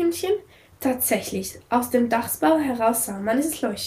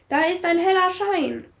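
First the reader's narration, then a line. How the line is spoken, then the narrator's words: Called out. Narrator (German): rief Hubert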